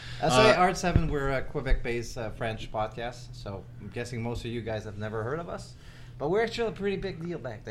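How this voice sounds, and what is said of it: Quebec French accent. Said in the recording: “your accent has got me transfixed ... I think you've just been voted sexiest accent on this podcast”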